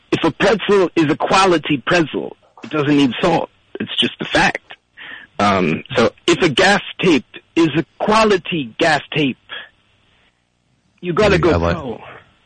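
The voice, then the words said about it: Imitates another person's voice. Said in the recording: “You do the Christopher Walken. Let's hear your Christopher Walken impression.”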